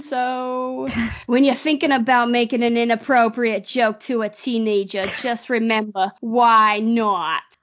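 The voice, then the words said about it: Put-on accent. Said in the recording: “Where'd the accent come from?”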